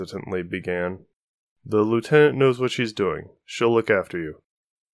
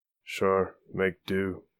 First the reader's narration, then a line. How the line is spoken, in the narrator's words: the woman muttered